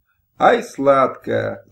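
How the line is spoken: Laughing. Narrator (Russian): засмеялся

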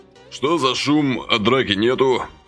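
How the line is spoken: Stern inquiry. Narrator (Russian): Строго осведомился Василий

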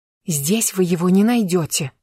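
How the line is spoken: Hissing. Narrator (Russian): Продолжая шипеть, Лиза

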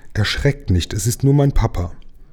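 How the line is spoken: Mermaid calling out. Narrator (German): die Seejungfrau rief

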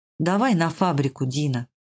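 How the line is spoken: Tired voice. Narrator (Russian): Альваро устало произнес

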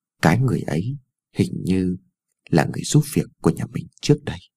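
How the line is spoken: Mumbling softly. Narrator (Vietnamese): Cô còn lí nhí nói thêm

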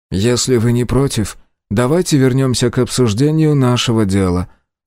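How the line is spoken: Flat, colorless tone. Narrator (Russian): бесцветным тоном вставил Мин

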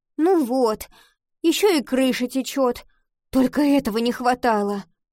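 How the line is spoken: Groaning. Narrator (Russian): простонала она

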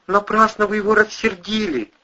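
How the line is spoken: Frightened boy forcing words. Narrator (Russian): выдавил пацан побелевшими губами

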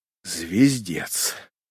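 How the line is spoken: Breathed out. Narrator (Russian): выдохнул оператор

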